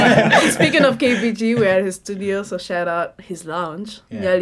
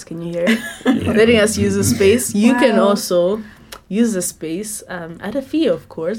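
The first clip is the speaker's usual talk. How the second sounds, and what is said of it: Put-on radio announcer voice. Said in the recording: “I'm putting on my radio voice.”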